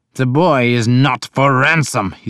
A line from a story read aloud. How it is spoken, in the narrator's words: he snarled